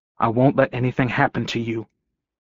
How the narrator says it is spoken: Gordo said quietly

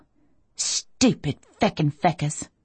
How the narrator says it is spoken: I mutter

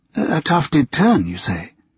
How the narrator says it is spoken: Lucy finally murmured, since she could not think of any other suitable reply

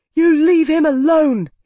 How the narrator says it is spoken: he shouted

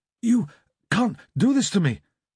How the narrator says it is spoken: stammered

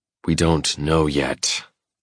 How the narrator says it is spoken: I growl, trying to keep a rein on my temper

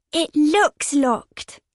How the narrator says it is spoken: Ellie said eagerly

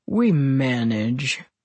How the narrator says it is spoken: Edward said dryly

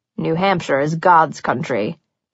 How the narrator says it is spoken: he murmured appreciatively

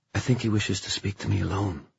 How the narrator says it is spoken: said Christina in a whisper

